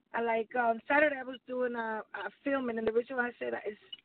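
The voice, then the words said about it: Non-native English accent. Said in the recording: “I understand English, I do have an accent”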